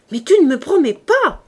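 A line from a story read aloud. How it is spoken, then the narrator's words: Exclaimed. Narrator (French): s'écria Marius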